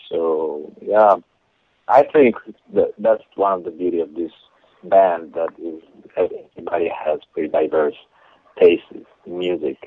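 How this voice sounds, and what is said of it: Italian accent in English. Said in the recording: “with that accent... I'm from Italy.”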